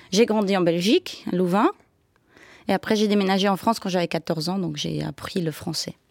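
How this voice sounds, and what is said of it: Slight Belgian accent in French. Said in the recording (French): “avec ce petit accent ... mon accent. Alors, mon papa est flamand, donc belge, et ma maman, elle est suisse-italienne ... l'accent belge”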